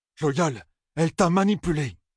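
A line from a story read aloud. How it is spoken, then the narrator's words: Exclamation. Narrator (French): s'écria Perrine, se demandant si ses interlocuteurs pouvaient entendre grincer ses dents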